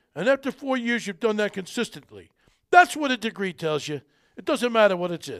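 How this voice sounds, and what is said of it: Poor imitation of another person's voice. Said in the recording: “that's probably a bad Sylvester Stallone accent. I normally could do it better. But I'm a little punchy today.”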